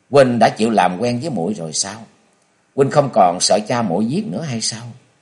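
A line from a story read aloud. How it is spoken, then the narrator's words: Smiling young woman. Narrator (Vietnamese): Bạch y thiếu nữ mỉm cười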